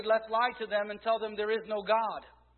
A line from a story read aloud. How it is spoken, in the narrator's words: Another shouted